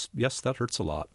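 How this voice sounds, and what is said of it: Very flat, emotionless voice. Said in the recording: “say in a very flat voice,”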